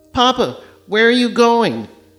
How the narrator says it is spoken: Amobi cried in a petulant shriek

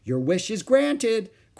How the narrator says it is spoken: cried Aunt Beatrice, smiling

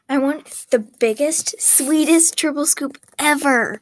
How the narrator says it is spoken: Alex replied excitedly

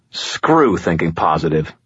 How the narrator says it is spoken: growled

